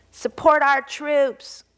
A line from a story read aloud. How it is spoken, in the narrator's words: Conan yelled